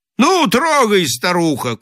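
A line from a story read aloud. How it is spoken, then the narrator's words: Shouted at horse. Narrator (Russian): крикнул Холл на лошадь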